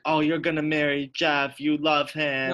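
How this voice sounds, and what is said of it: Put-on wannabe Jamaican accent. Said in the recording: “Like, wannabe Jamaican voice right now? ... that was me doing Shanae's mom's accent.”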